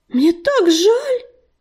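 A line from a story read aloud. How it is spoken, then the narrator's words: Sympathetic exclamation. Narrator (Russian): воскликнула Листвичка, с сочувствием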